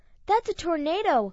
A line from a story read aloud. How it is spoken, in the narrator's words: Peter's mother exclaimed